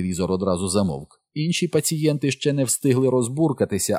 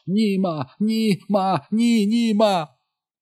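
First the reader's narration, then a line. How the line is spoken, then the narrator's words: Shrieking. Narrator (Ukrainian): Джиммі заверещав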